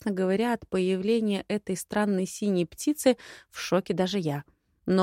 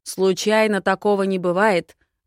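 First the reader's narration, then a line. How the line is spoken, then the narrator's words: Growled. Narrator (Russian): рычал Харш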